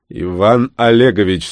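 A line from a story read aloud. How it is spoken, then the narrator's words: Slightly raised growl. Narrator (Russian): слегка повысив голос, рыкнул Климов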